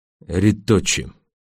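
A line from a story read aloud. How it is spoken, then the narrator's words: Quiet reply. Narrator (Russian): Тихо ответил гонец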